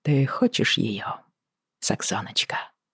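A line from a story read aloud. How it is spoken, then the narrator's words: Quiet question. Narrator (Russian): тихо спросил Джейми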